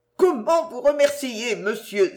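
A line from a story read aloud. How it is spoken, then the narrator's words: Exclaiming. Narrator (French): s'écria-t-elle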